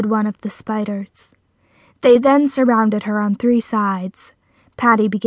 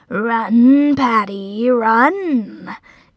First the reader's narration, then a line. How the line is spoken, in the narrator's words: taunted one of the spiders